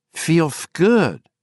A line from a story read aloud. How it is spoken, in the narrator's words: Justin lisped